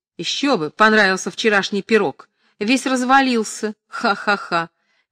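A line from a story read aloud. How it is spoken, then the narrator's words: Loud laughter. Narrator (Russian): Настя громко засмеялась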